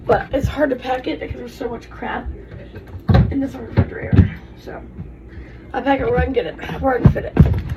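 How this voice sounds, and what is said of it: Breathless, out-of-breath voice. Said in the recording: “out of breath. Y'all, I'm so out of breath.”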